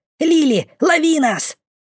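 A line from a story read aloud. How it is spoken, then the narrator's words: Loud bark. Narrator (Russian): Гаркнула она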